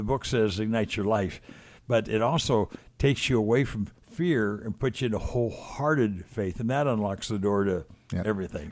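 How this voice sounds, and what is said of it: Weak, strained voice after voice loss. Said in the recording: “I lost my voice 9 days ago ... I have a little more voice. Not my normal voice. I'm still suffering a little bit”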